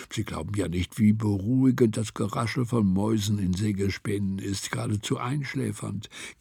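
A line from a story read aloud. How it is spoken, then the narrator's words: Whisper. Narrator (German): flüsterte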